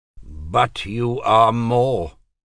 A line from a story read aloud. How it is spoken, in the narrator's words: Dominic said flatly